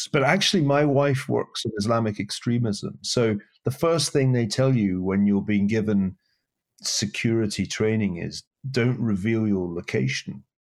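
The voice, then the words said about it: Scottish accent. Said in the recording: “that Scottish accent”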